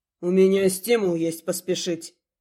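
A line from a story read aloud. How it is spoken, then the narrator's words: Grunt. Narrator (Russian): хмыкнул рядом муж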